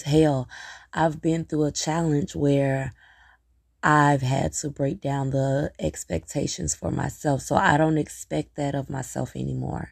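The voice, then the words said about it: Tired, weary-sounding voice. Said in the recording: “I'm tired. You can hear it in my voice.”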